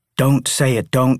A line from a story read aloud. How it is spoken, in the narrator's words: she cried